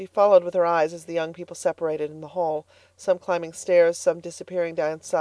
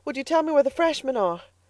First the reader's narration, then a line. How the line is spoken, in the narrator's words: she panted